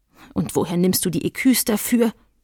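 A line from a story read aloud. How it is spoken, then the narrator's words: Grumbled. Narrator (German): brummte Gottliebe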